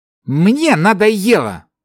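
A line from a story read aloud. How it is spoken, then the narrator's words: Angry, through gritted teeth. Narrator (Russian): зло процедил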